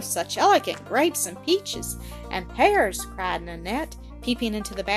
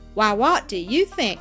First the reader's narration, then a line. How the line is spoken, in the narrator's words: laughed Harry